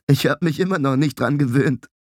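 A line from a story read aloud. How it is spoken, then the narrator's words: Giggling. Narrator (German): Lyke kicherte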